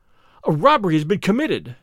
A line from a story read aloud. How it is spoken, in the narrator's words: I gasped